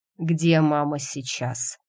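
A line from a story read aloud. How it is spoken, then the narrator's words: Tired question. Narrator (Russian): устало спросил Грег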